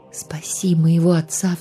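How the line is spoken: Silent inner plea. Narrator (Russian): взмолился про себя

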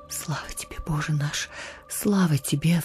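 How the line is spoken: Sighing. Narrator (Russian): вздыхал отец

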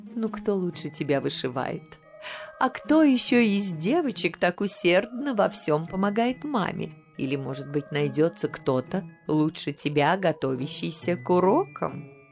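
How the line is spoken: Ringing laugh. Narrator (Russian): Ее Величество звонко рассмеялась

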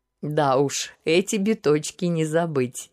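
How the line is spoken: Bursting into laughter. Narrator (Russian): не выдержав, рассмеялся император

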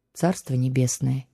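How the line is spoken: Quiet empress. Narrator (Russian): тихо произнесла императрица

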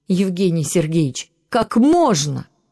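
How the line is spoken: Raised voice, real shouting. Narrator (Russian): Она не просто повысила голос, но по-настоящему закричала на доктора

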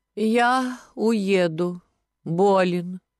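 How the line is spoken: Languid. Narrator (Russian): сказал Кистунов томным голосом

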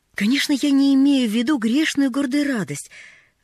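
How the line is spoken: Guilty exclamation. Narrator (Russian): воскликнула она, виновато

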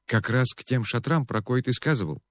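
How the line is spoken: Innocent boy's voice. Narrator (Russian): невинным голосом уточнил мальчишка

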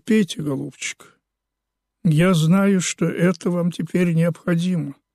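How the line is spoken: Gentle, affectionate. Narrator (Russian): Савинов сказал ласково

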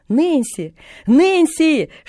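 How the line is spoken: Shouting at full voice, moving. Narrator (Russian): что было мочи, кричала она на ходу

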